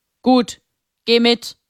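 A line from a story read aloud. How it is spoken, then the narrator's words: Rough voice. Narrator (German): Fritz mit rauer Stimme sagen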